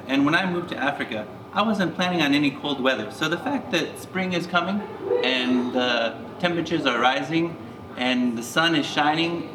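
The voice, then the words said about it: American accent. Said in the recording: “as you can tell by my accent, I'm from America.”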